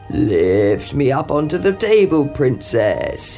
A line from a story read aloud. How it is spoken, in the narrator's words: he croaked